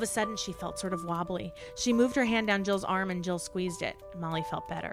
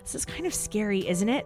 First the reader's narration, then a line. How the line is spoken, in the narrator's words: Molly whispered